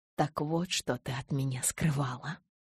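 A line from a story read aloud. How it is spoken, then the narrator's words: Whisper. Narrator (Russian): прошептал он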